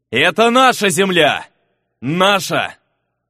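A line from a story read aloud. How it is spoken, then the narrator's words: Loud shout. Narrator (Russian): громко крикнул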